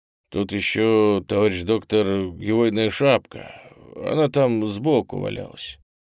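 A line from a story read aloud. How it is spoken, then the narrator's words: Muffled, prisoner worker. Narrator (Russian): Один из заключенных, видимо, рабочий мастерских, глухо сказал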